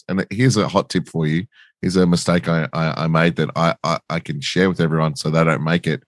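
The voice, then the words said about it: Slightly husky, hoarse voice. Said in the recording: “You can probably hear it in my voice a little bit. I've got, I just got a cold ... Husky.”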